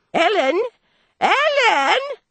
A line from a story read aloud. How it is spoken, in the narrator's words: she cried in her shrill old voice